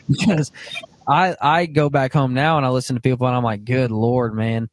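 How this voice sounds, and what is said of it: Southern Arkansas drawl. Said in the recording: “I was from the northern part of Arkansas, so it's not near as thick as some ... you've got a thick draw”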